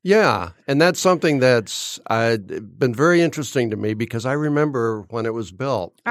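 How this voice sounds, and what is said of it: Deep, congested voice. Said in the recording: “I'm working on a really bad fall cold ... It's just giving you a cool, deep voice. ... Yeah, very sexy.”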